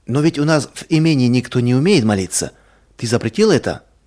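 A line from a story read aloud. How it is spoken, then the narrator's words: Plain. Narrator (Russian): сказала жена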